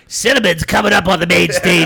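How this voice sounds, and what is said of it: Strip club DJ announcer voice. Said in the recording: “This is my strip club DJ voice.”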